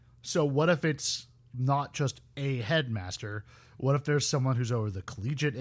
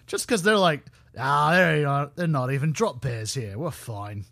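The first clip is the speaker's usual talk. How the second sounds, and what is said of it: Bad fake Australian accent. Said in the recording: “That was a very bad Australian accent”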